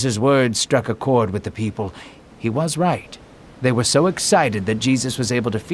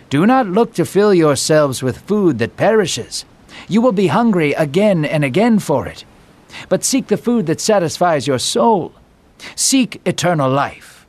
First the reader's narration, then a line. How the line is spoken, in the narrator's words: Jesus raised his voice again, saying